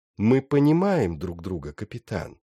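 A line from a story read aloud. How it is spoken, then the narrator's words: Plain. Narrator (Russian): спросил он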